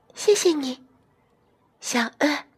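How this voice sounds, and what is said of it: Very small, quiet voice. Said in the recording (Chinese): “兔兔用很小的声音说”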